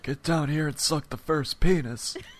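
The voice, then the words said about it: Imitates another person's voice. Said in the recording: “That was more Bernie Sanders ... your presidential impersonation”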